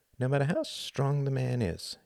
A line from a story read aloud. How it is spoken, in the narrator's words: she murmured